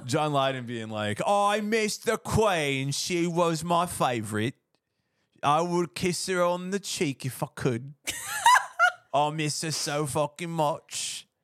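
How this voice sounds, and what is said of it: Put-on British accent. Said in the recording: “Sorry for my British accent.”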